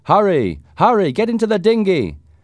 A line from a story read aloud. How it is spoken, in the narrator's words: Voices shouted